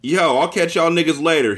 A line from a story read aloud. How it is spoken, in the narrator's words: he shouted, smiling at his friends